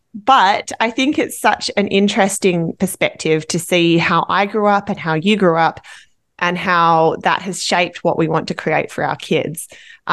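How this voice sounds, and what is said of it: Australian accent. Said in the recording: “accent by now, you know, ... from Australia”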